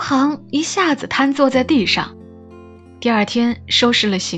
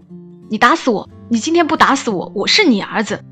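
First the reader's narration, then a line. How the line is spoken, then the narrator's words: Father, angry roar. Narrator (Chinese): 他爸怒吼着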